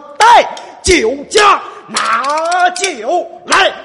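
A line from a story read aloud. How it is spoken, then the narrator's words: Impatient shouting. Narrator (Chinese): 二武松连喊了三声…说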